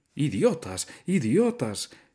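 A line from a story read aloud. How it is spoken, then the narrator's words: Exclamation. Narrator (Spanish): exclamó Benjamín saltando alrededor de ellos y pateando el suelo con sus cascos menudos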